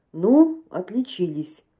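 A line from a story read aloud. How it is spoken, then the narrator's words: Plain. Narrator (Russian): сказал он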